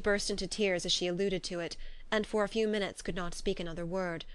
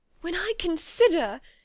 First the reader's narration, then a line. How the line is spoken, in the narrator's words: she added in a yet more agitated voice